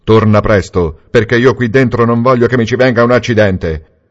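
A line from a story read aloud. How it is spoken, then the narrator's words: Shouted. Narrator (Italian): Niccolò gridò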